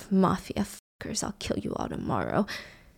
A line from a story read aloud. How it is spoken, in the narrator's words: he's whispering to himself